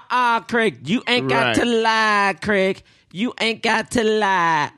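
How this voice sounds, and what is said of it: Impression of a Friday movie character. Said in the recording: “what is that character's name in Friday? ... That's my impression.”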